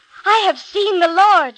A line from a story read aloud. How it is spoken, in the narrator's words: she cried